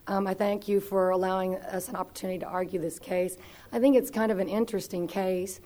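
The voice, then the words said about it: Squeaky, sick-sounding voice. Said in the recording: “I've been a little sick during the vacation, so my voice is squeaky. It won't be very appealing sounding”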